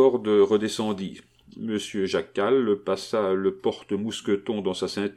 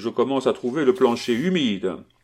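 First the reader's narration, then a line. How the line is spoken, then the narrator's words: Shouted. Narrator (French): cria-t-il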